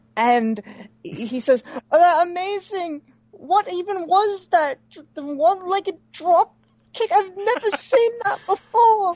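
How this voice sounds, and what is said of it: Imitates another person's voice. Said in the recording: “It's a perfect ... Alan Forel impersonation.”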